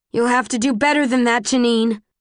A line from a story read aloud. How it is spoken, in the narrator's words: say in a loud voice